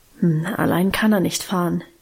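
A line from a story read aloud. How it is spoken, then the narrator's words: Murmur. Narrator (German): murmelte sie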